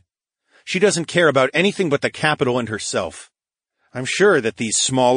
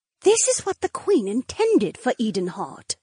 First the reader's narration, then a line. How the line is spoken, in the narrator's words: Edeny breathed